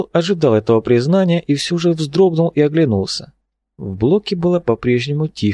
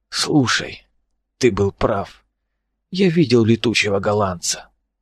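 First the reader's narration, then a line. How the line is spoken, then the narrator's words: Very quiet speech. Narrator (Russian): так тихо тут говорил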